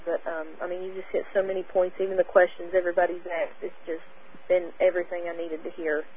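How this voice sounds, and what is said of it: Southern American accent. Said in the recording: “I appreciate your southern accent”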